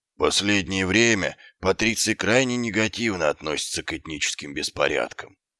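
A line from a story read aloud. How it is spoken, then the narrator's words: Glum, dreary. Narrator (Russian): уныло произнес сержант Колон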